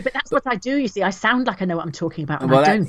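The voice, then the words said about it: Posh middle-class English accent. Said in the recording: “That's so middle class of you ... Posh girl ... You're using your middle class privilege over me. It's like bamboozling me with your accent”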